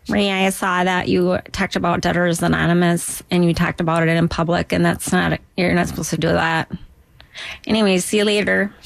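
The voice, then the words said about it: Duluth Minnesota accent. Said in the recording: “I can do a Duluth because that's where I'm from.”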